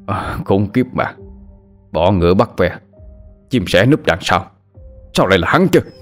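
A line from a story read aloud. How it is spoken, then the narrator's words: Growling angry man. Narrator (Vietnamese): Người đàn ông vận đồ đen gầm gừ nói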